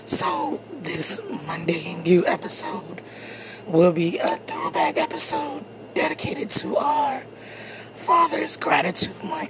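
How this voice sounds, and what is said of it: Hoarse, strained, nearly lost voice. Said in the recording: “as you can hear, I have lost my voice.”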